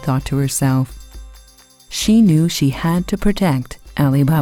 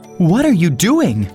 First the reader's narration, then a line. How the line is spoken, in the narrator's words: cried Ali Baba